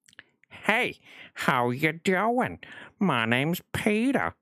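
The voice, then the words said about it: Peter Griffin cartoon voice impression. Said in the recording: “it's as close as I can get to Peter Griffin”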